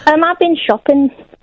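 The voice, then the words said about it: Put-on northern regional accent. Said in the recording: “I'm from up north ... I made the accent. I'm not really from up north. ... that's why I put on the accent. ... I'm only comfortable doing voices. ... this isn't your real voice”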